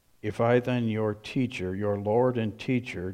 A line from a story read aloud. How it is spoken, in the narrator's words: Jesus said